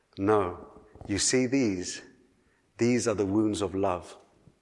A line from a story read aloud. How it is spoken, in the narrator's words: the child smiled gently and he said